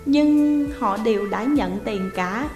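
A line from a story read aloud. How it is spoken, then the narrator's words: Smiling. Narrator (Vietnamese): Điền Phong mỉm cười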